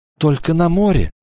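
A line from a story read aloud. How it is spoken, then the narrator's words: Trembling voice. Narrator (Russian): сказала она дрожащим голосом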